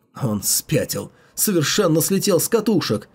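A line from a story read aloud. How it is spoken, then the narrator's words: Silent inner wail. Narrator (Russian): взвыл про себя Цю Байлу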